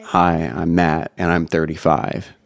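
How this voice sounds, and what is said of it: NPR-style voice with vocal fry. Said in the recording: “A little bit more my normal voice, but more NPR ... That's like called vocal fry ... when you say 35, like you go, oh ... Yeah, vocal fry.”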